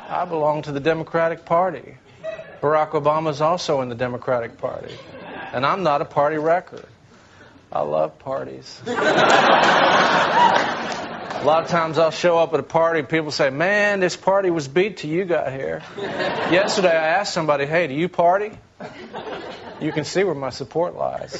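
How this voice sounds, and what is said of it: Bill Clinton impression, southern lilt, croaky. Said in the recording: “is Bill Clinton. ... Hammond nails the southern lilt in his voice, that hint of frog croak in his throat ... Hammond alternates between oozing sincerity and sleaze”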